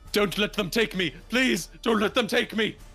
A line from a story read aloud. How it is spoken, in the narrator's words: Screaming